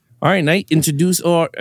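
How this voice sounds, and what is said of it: Slips into an Australian-sounding accent. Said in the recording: “why did I sound Australian? ... I was gonna turn Australian there.”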